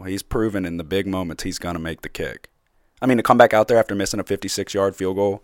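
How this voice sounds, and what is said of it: Voice sounds a little off. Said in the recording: “my voice sounds a little off right now”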